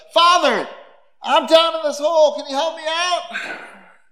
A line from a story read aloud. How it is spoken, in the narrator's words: the guy shouts up